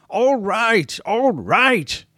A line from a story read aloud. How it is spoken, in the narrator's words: he shrieked, exhausted